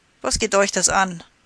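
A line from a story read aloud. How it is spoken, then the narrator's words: Calling out. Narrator (German): rief ihm da Rattler zu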